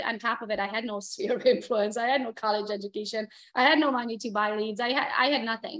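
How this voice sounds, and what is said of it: Non-native English accent. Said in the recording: “Plus I have an accent”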